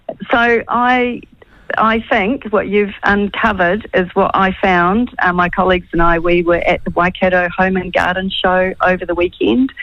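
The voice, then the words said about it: Croaky, hoarse voice. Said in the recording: “my voice is a bit croaky”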